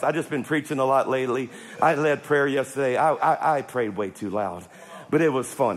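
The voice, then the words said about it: Worn, strained-sounding voice. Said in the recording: “I apologize for my voice. I'm way more excited than my voice sounds.”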